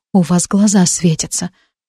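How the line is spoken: Whisper. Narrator (Russian): прошептала я

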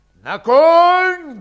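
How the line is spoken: Thunderous bark. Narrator (Russian): громовым голосом рявкнул Иван Алексеевич

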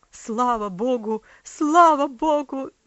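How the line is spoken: Father shouting. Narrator (Russian): закричал отец

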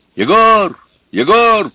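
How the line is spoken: Shouting. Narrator (Russian): кричал Федор

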